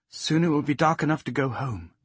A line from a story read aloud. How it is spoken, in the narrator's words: she said